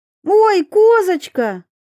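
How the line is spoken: Joyful gasp, small girl. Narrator (Russian): радостно охнула пигалица

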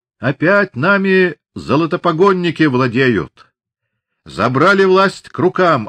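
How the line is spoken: Yelling. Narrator (Russian): орал Ермаков

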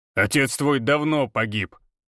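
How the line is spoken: Growling. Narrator (Russian): рыкнул Григор

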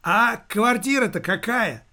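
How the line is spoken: Shout. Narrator (Russian): он крикнул бабуле

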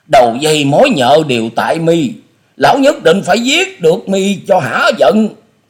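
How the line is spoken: Loud, murderous yell. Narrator (Vietnamese): Tư Đồ Hạnh ánh mắt bắn ngời sát khí rồi hét to

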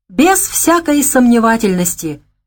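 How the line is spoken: Exclaimed. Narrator (Russian): воскликнул Майкл

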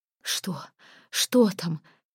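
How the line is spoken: Hoarse, breathless voice. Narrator (Russian): хриплый задыхающийся голос

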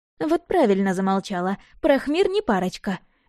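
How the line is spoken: Giggling. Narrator (Russian): хихикнула Ирка

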